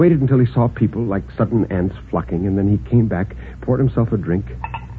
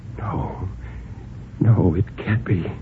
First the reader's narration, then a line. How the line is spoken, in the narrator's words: After a long time, Bill whispered